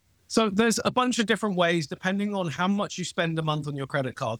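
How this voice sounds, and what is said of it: British accent. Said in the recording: “my weird British accent”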